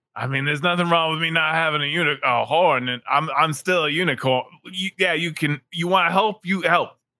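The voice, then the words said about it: Character voice with Bridge-and-Tunnel accent. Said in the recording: “Your accent sounds familiar. ... I'm Bridge and Tunnel Unicorn.”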